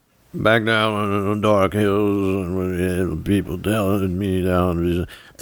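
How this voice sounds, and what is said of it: Sung imitation of another person's voice. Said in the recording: “do an impression. But I don't think I can do an impression of Johnny Cash”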